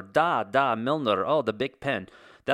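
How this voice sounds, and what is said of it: Put-on generic European accent. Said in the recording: “That's my European accent, by the way. It encompasses all countries.”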